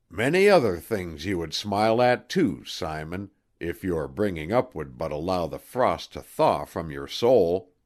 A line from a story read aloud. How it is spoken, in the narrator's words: chuckling, to say